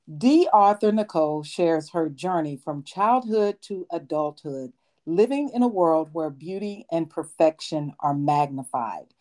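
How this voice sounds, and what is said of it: Formal professional broadcaster voice. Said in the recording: “I'm going to get in my professional correspondence voice because I want to be Tamron Hall one day”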